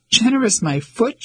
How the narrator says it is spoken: she exclaimed

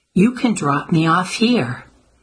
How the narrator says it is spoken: Addie called out to the driver

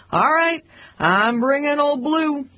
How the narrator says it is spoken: I'd shout

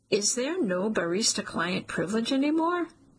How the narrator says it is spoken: Armin chuckles, the sound soothing the knot in my core

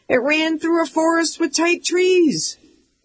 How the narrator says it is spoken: we'd shout

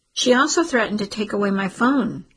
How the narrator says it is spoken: Taya said

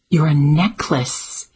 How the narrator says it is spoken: exclaimed Addie

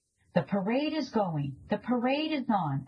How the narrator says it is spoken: a child yelled

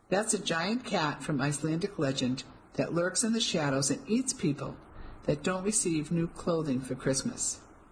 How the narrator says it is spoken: I chuckled

